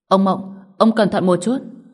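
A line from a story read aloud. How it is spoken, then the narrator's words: Loud shout. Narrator (Vietnamese): Tiêu Thu Phong trong miệng lớn tiếng quát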